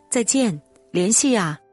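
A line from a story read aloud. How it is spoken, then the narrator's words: Loud shout. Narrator (Chinese): 他大声喊着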